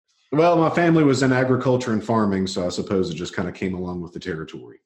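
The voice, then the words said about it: Southern US country accent. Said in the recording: “Sounds like you could be a country singer, man. You got the accent dialed right in there”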